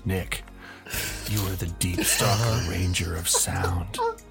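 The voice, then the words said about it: Sexy close-mic voice. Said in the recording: “a sexy voice ... Let me get good and close to the microphone for this.”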